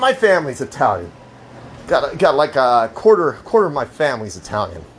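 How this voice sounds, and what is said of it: Usual voice. Nothing is said of it.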